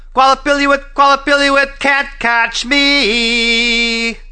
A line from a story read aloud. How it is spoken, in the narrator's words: Alashua yelled as loud as she could